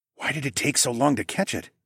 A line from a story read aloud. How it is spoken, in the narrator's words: I asked under my breath